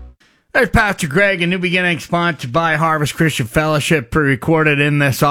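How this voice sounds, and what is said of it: Usual voice. Nothing is said of it.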